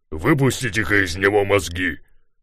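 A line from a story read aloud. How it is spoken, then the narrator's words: Growled. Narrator (Russian): своего первого рычания волк Ларсон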